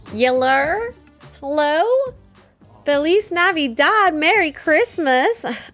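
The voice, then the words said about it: Put-on Southern Ontario mother accent. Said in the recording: “talking like a Southern Ontario mother.”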